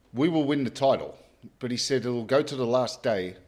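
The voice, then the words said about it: Cockney accent imitating Tony Gale. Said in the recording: “in his Cockney accent”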